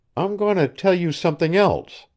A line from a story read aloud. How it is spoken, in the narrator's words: she faltered